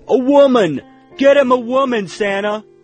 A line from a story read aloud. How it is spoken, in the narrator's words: These men were very loud and irritating, constantly laughing and jostling one another